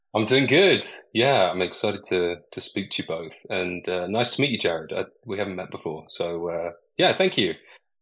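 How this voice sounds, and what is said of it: British accent, slightly Americanized. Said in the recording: “has a very charming British accent ... It sort of warps between slightly Americanized English and British English”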